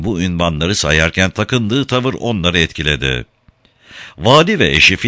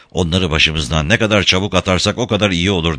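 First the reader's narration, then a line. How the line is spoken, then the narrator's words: Muttering. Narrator (Turkish): diye mırıldandı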